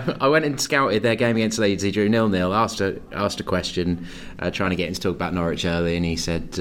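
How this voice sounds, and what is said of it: Usual voice. Nothing is said of it.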